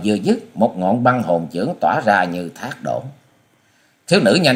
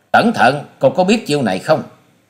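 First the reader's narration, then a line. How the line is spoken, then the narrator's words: Loud shout. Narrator (Vietnamese): Hòa sĩ Kiệt quát to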